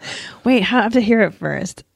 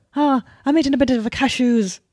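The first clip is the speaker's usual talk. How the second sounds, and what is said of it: Put-on Irish accent. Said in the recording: “Irish accent ... Yeah, that's better. That's it. That's better.”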